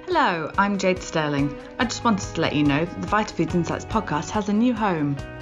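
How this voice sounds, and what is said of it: British accent. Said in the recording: “my charming British accent”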